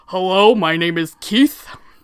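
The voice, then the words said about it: Loud put-on deep voice. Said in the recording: “I have to, like, shout when I do it ... I didn't go deep enough because I wasn't being loud ... a kind of deep voice ... It's a hell of a voice. Does that hurt?”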